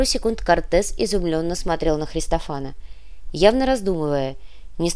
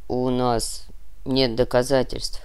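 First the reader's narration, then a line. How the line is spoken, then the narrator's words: Sad admission. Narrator (Russian): грустно признался Христофан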